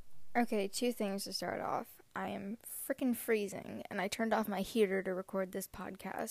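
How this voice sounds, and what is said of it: Congested, sick-sounding voice. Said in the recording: “I sound sick ... only one side of my face really is snotted up”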